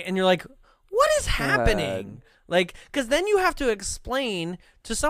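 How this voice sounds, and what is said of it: Usual voice. Nothing is said of it.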